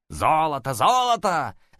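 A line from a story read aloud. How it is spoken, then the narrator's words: Group shouting. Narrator (Russian): закричали они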